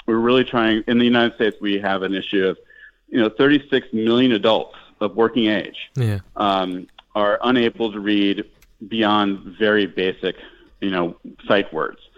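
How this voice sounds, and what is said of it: American English accent. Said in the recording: “obviously, in the United States, if you can tell by my accent”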